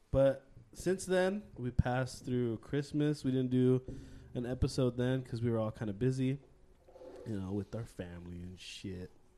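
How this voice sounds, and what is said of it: Sick-sounding voice. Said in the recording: “I've been pretty sick, to be honest. I don't know if you can hear it in my voice.”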